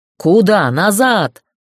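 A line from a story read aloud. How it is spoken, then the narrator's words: Growled. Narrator (Russian): зарычали на него телохранители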